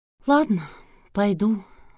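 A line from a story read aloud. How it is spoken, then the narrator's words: Sighed. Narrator (Russian): вздохнула Алла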